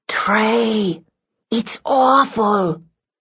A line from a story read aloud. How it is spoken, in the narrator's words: she said in the same hissy whisper